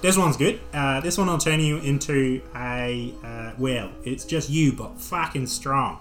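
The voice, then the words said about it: Put-on accent, not his best. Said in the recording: “This is not my best accent by far.”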